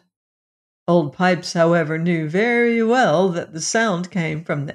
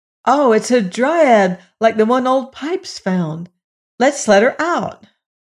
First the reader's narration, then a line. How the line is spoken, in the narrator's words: in astonishment, and then one of the boys exclaimed